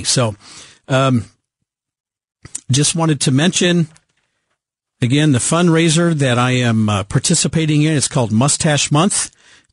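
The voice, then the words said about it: Hoarse, froggy congested voice. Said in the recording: “I've only wobbled one time with my cold here ... I think if I speak just a little bit lighter, I might not stress out my voice ... I had laryngitis ... my head's just full of yuck, and my voice is a little froggy”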